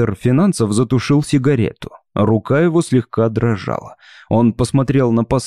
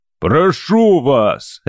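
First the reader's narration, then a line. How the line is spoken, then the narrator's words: Barking. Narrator (Russian): рявкнул Скараган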